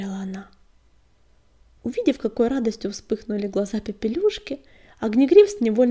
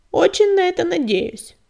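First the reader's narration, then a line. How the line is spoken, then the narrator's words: Grumbling. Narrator (Russian): пробурчала Щербатая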